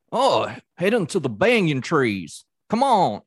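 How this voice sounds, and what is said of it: Old Southern character voice. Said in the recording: “he sounds like this like real old like like southern character”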